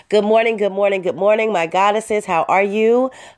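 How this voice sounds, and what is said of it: Stuffy, congested voice. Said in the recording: “I am a little bit under the weather ... can tell by my voice. ... I'm a little stuffy”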